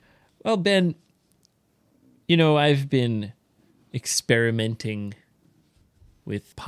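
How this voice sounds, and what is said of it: Usual voice. Nothing is said of it.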